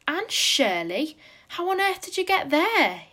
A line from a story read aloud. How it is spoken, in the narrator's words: he exclaimed